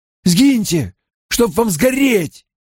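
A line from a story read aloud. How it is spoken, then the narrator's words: Shouted. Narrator (Russian): крикнул Перин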